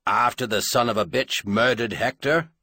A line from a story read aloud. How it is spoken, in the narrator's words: Anvil Rock half snarled